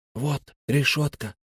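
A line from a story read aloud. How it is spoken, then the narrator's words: Whisper. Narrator (Russian): прошептал Фари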